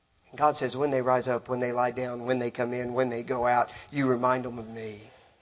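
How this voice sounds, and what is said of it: Texan accent. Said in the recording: “If you're like me, Texas, everybody hears it ... Guess how I talk? Texan. I've been out of Texas 30 years. I still talk”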